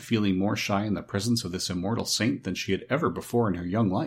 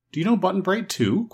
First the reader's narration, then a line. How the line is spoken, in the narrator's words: questioned Dorothy eagerly